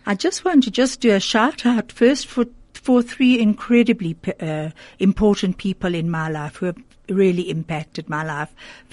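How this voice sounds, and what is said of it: Croaky, partly lost voice. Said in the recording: “If my voice sounds a bit croaky... I do have a bit of um, lost voice at the moment.”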